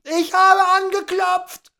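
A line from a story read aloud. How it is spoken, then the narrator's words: Shrieking. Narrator (German): kreischte Tom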